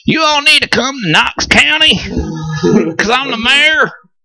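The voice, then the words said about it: Deliberately bad Tennessee accent. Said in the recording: “that was my really bad Tennessee accent”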